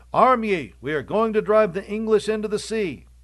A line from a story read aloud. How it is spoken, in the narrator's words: cried out